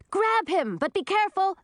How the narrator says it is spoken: shouted Millie

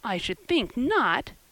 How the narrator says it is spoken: exclaimed Diana indignantly

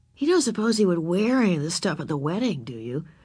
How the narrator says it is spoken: Ramona whispered to Beezus

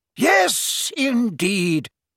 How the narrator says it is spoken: cried Slughorn a little thickly

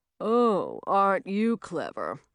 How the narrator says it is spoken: Simon said in a sarcastic voice

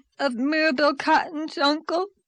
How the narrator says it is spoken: sobbed Dora

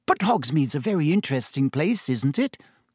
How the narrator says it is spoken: Hermione pressed on eagerly

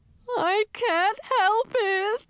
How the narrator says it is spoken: Olafat wailed

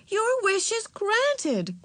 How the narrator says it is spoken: cried Aunt Beatrice, smiling

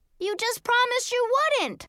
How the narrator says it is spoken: I cried

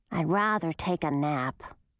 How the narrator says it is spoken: grumbled the little snake

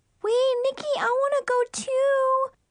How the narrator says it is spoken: Brianna whined

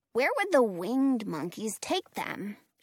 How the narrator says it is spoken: she asks

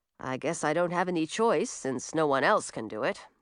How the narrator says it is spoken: he grumbled to himself

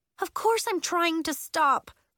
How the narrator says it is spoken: Willa moaned, beginning to weep

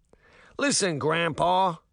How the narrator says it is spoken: the second guard said with a yawn

